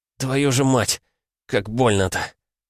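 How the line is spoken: Pained exhale. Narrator (Russian): Выдохнул я

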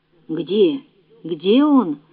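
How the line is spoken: Confused mumbling. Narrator (Russian): растерянно забормотала она

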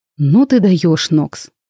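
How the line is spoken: Loud exhale. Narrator (Russian): шумно выдохнул Вейн

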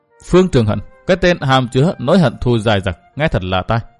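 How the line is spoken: Muttering. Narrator (Vietnamese): Hương Châu lẩm bẩm

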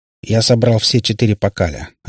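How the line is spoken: Plain. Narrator (Russian): ответил охотник

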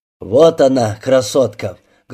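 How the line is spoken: Loud. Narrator (Russian): Громко сказал Сыч

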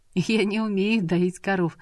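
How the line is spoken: Laughing. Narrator (Russian): засмеялась Манана

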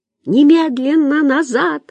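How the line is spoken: Yell. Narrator (Russian): завопила Ольга

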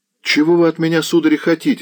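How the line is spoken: Frightened boy shouting. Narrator (Russian): закричал перепуганный парнишка

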